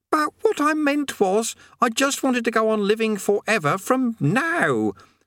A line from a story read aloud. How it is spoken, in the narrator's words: said Eric frantically